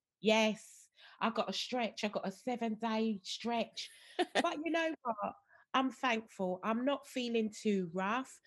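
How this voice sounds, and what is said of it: Croaky, deep, congested voice. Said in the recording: “my voice sounds a little bit croaky and deep. I've got a blocked nose.”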